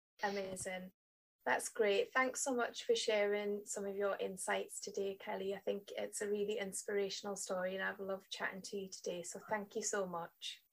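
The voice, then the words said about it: Speaks with a light accent. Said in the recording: “I love your little voice. I love your little accent. So much nicer than mine.”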